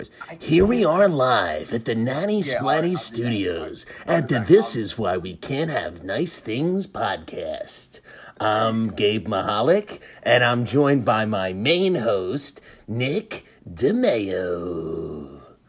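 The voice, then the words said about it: Sports broadcaster announcer voice. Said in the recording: “in an impression voice, you know, and like somebody else's voice, you know. I'll do it in the Sports Center voice.”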